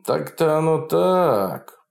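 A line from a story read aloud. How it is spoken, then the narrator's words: Drawl. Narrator (Russian): протянул Фролов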